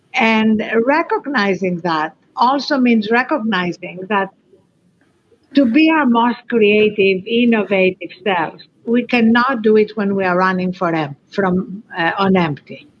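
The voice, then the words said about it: Greek-accented English. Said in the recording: “Greek accent”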